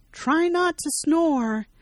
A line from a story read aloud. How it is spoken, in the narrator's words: shouts down to him